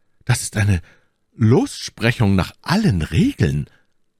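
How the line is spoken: Call. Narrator (German): rief Aramis

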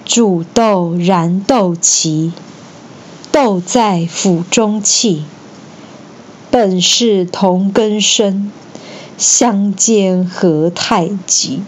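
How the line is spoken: Sorrowful, slow recitation. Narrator (Chinese): 曹植才用哀伤的语气缓缓说出

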